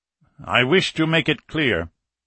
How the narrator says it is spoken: Falcon went on in a firmer voice

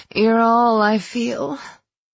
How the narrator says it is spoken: I moaned, needing to move to take more

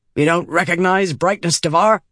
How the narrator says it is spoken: he barked

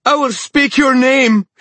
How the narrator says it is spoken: she shrieked at the king

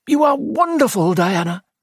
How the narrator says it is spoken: cried Hayden

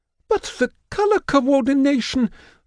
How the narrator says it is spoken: the Arctarius squeals

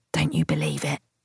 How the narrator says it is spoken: Nelson whispered to me

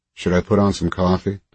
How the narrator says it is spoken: Dolores asked

